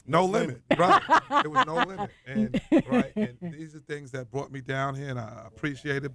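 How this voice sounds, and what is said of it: New York accent. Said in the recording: “don't you guys love the New York accent?”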